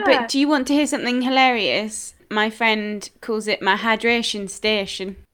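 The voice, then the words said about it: Northern English regional accent. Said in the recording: “that northern accent. ... We love a regional accent.”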